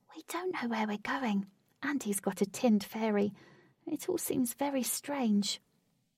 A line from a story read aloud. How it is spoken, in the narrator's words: She whispered